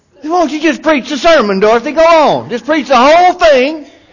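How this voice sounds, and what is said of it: Sarcastic mocking tone. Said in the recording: “I'm being sarcastic,”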